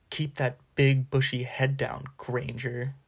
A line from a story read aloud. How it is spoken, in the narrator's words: sneered Malfoy